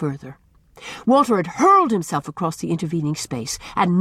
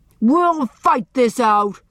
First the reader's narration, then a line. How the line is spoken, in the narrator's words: he howled